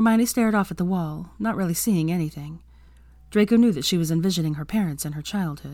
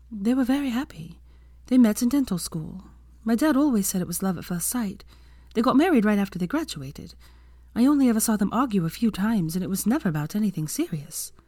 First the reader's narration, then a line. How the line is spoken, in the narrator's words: Hermione responded wistfully